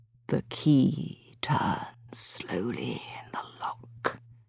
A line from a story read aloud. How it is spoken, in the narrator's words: he whispered